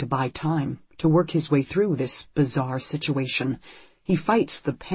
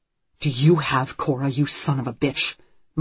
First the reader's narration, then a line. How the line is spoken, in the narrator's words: Marco hisses desperately